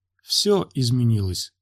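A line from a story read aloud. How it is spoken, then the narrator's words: Calm. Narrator (Russian): сказала спокойно Евраана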